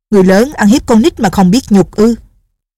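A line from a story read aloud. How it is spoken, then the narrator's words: Furious shout. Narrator (Vietnamese): Định Vật Sư Thái cả giận quát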